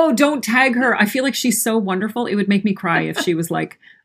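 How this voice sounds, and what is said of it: Usual voice. Nothing is said of it.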